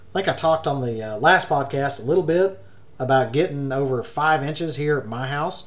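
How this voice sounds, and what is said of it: Voice sounds different, congested. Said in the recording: “my voice is a little different because, you know, it's been raining a little bit lately”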